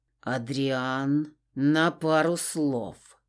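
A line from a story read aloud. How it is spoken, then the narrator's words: Through gritted teeth. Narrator (Russian): процедил Кристиан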